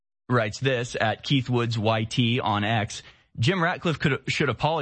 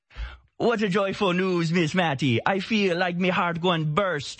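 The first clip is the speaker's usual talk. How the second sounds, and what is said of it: Exaggerated put-on Jamaican accent. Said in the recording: “I have to read it in a hilarious accent. I think it's necessary... A hilarious Jamaican accent”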